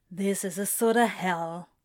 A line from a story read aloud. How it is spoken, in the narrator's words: mumbled to himself